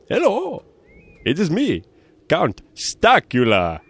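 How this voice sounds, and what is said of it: Foreign Count Dracula character voice. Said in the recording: “do you hear some sort of foreign accent? ... It looks like you're Count Dracula.”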